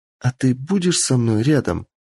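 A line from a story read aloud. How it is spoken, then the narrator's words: Enchanted sighing reply. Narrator (Russian): зачарованно вздохнет Кицуне в ответ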